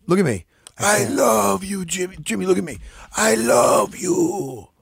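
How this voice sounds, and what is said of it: Imitates another person's voice. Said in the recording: “Like the way he says it. ... That's a good impersonation.”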